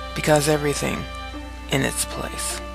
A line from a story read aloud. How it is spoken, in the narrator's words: Caitlin responded flatly